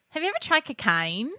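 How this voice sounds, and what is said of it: Put-on Australian accent. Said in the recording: “I've got one accent and I can do one phrase. So I can do Australian”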